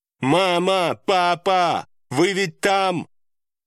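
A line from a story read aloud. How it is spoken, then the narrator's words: Loud shout. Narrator (Russian): Громко прокричала Чивон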